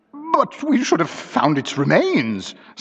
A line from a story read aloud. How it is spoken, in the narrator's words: sobbed Mrs